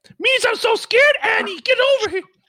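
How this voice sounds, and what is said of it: Jar Jar Binks character voice. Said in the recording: “my Jar Jar Binks impression”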